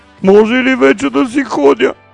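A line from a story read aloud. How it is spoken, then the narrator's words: Pleading. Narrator (Bulgarian): примолил се богаташът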